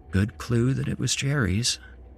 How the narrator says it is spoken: Evelyn said quietly

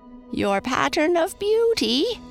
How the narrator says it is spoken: cried the wicked queen

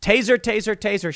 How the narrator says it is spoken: she yelled

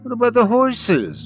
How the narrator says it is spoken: whined

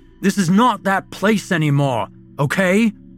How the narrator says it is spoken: Ian barked out to the room

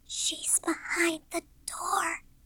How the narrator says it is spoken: she whispered suddenly, with a horrifying look in her eyes

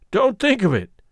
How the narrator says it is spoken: said Coltrane cheerfully

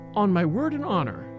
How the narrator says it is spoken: repeated softly

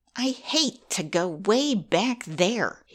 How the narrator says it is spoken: he grumbled, for, as you know, he is naturally rather lazy

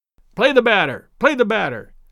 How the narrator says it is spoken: sharply called Daddy from the bench

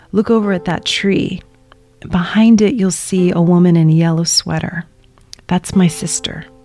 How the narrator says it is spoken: my dad leans over and whispers to me

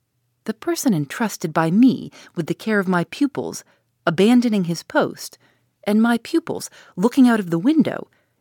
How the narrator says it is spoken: exclaimed Dr

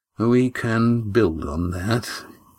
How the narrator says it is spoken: he said

